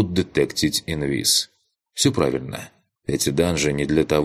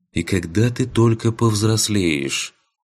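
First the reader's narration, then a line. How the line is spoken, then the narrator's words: Sigh, quiet question. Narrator (Russian): вздохнула тихо спросила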